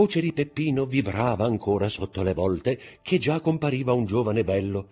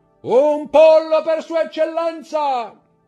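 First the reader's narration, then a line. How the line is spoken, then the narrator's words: Full-lunged shout. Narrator (Italian): Il brigante, che si chiamava Peppino, gridò con tutta la forza dei suoi polmoni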